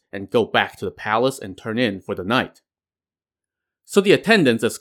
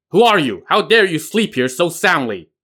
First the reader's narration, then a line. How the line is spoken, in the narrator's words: he suddenly barked